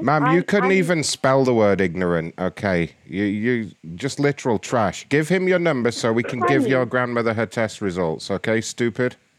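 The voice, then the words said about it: Speaks with a noticeable accent. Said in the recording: “Can you not tell from the accent?”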